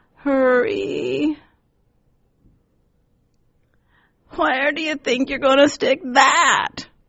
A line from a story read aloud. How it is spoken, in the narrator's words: croaks, eyes wide as an owl's